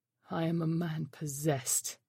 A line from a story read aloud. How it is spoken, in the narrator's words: he groaned